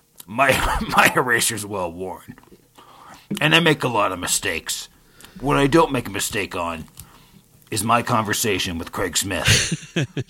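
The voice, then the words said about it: Imitates another person's voice. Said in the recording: “that little impression”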